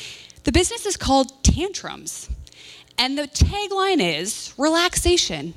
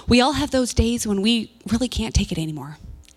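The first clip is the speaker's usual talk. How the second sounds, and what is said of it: Advertising-style marketing voice. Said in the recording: “put on my marketing voice.”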